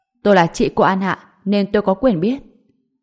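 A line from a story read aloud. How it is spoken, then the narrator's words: Somewhat sharp, scolding. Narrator (Vietnamese): An Ngọc ... giọng nói có chút quát tháo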